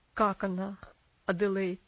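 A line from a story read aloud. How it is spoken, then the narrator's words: Strained, forced calm. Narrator (Russian): спросил мистер Динсмор, тщетно пытаясь говорить спокойно и уверенно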